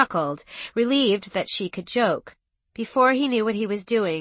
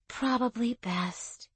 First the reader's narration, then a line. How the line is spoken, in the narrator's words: she said sleepily